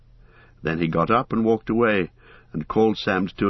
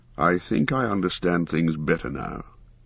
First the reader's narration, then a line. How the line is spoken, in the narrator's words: he said in a low voice